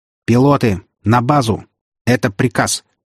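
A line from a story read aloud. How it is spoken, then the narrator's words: Stern command. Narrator (Russian): Отданный строгим голосом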